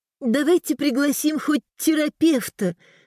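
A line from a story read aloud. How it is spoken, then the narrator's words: Timid. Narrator (Russian): сказала Элеонора робко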